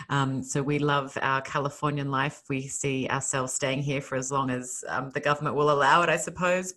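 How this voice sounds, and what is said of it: Australian accent. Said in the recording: “you've probably heard from my accent that I'm not from here ... I was born and raised in Australia, in Sydney, Australia”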